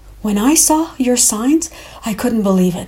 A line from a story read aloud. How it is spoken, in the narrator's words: said breathlessly